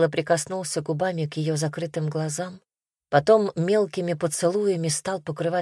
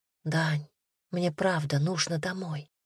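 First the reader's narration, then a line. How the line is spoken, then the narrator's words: Whispered. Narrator (Russian): прошептала Ивка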